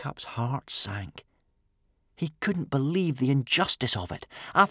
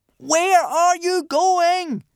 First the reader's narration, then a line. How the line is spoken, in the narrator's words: Hiccup cupped his hands and shouted through the swiftly descending sea mist at the wanderers, fast disappearing in the other direction